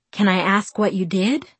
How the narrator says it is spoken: asked

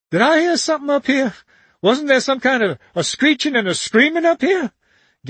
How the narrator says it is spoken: gasped

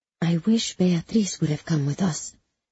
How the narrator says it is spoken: Magda whispers to me

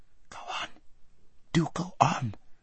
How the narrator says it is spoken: whispered Aravis, whose heart was beating terribly, and who still felt that her father might run into them at any corner

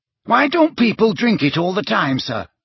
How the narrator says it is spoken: said Terry Boot eagerly

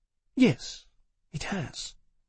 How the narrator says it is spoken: she answered, speaking quietly too

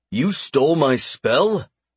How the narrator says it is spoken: Max snorted

